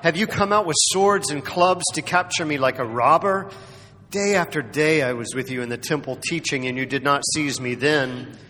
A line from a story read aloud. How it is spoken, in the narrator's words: Jesus yelled out